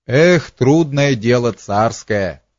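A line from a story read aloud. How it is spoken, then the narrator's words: Half-laughing. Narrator (Russian): говорил он Петру, полусмеясь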